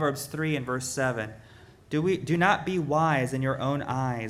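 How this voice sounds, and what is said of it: Usual voice. Nothing is said of it.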